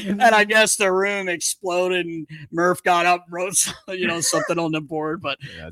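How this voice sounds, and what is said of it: Usual voice. Nothing is said of it.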